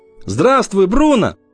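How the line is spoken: Shouted greeting. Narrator (Russian): крикнул

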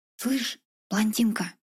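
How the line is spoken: Quiet address. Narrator (Russian): Тихо обратилась

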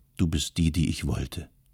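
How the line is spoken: Angry, bitter voice. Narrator (German): Es lag Ärger und Bitternis in ihrer Stimme

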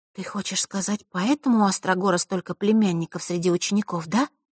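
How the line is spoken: Quiet, serious. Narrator (Russian): тихо произнесла Василиса, мигом уловив серьезность темы

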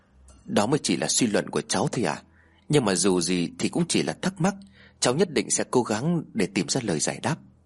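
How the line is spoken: Soft reply. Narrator (Vietnamese): Lý khẽ đáp

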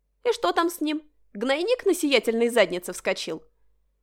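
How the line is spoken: Ringing laughter. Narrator (Russian): заливисто захохотала

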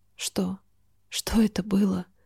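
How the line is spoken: Mumbled. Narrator (Russian): пробормотала

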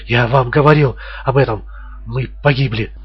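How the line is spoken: Stammering babble. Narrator (Russian): заикаясь, лепетал он

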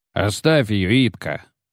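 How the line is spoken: Grumbled. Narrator (Russian): заворчал Керстен

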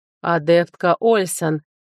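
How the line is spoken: Slow. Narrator (Russian): проговорил он медленно

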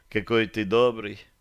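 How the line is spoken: Long sigh. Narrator (Russian): Таша протяжно вздохнула

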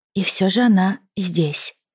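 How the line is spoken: Whispered. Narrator (Russian): прошептала Фиона

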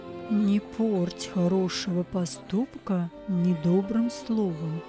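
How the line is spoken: Soft whisper. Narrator (Russian): тихо шепнул он

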